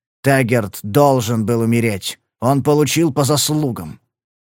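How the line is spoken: Harsh, through clenched teeth. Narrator (Russian): жестко процедил Грейвс

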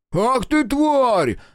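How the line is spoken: Prisoner yelling. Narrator (Russian): заорал пленник

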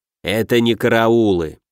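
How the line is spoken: Reluctant grumble. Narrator (Russian): неохотно проворчал Денебери

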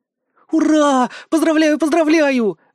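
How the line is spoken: Joyful shout. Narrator (Russian): закричала Галя

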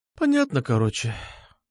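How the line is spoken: Sighed. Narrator (Russian): вздохнула Настя

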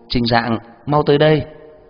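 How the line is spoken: Loud call. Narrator (Vietnamese): lớn tiếng hô

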